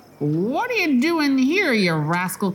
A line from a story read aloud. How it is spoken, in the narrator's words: cried the butcher angrily